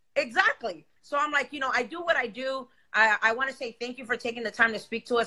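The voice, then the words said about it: Speaks with a non-native accent. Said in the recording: “I have an accent. Yes, I do. Don't know how to enunciate or pronounce certain shit”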